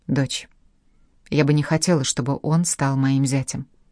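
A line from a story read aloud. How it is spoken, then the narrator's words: Gentle. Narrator (Russian): ласково сказала она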